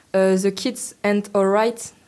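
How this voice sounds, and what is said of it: Bad put-on English accent. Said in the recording (French): “un accent anglais pourri”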